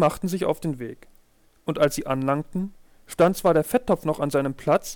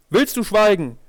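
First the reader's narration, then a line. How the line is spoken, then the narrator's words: Calling out. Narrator (German): rief die Katze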